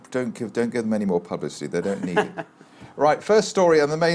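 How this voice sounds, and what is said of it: Usual voice. Nothing is said of it.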